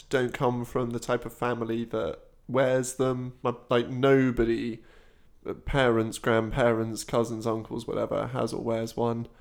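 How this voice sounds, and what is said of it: Posh British accent. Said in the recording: “I'm still the poshest person various people have met ... Accent, apparently, in a big way ... Massively.”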